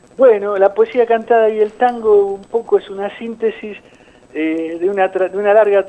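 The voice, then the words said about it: Argentine Spanish accent. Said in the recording (Spanish): “tu acento argentino”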